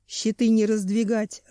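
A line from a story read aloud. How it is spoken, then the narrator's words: Growling. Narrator (Russian): рычал Семен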